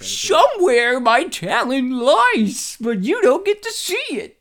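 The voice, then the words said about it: Adam Sandler impression. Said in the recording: “That was a good Adam Sandler impersonation”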